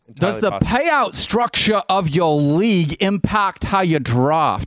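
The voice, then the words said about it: Bad Australian accent, piratey. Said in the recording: “do it in an Australian accent ... This is going to be British ... No, that was very bad ... That was sort of piratey, but pretty good ... It was like an Australian pirate.”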